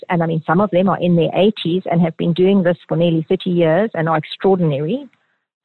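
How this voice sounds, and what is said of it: Slight South African accent. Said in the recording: “you may detect a slight accent that ... has, and a charming one ... she actually is from South Africa”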